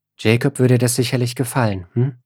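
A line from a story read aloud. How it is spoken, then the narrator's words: Gentle. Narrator (German): meint sie sanft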